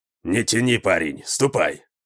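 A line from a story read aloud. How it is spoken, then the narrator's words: Grumbling. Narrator (Russian): проворчал он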